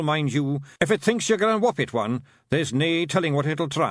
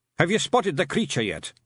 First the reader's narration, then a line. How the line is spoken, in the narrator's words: said Rob Anybody